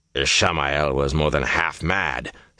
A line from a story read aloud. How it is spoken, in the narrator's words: Samael muttered